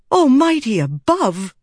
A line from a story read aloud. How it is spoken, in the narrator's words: Shallan gasped